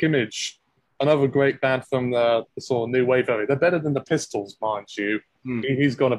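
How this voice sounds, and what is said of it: Usual voice. Nothing is said of it.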